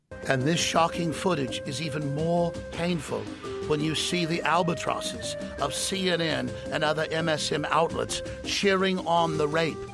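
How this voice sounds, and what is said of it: Imitates another person's voice. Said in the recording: “I'm doing kind of a David Attenborough accent here at the start”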